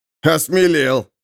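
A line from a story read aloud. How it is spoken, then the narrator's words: Distant laughter. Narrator (Russian): засмеялся где-то Эрих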